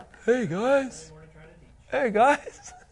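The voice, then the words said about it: Bad drunk slurring impersonation. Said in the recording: “Nobody wants the drunk elder to show up. ... That's a really bad impersonation.”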